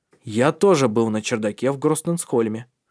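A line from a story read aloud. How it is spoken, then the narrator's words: Soft. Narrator (Russian): мягко сказал Тари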